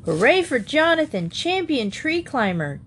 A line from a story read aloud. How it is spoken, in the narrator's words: George O'Connor shouted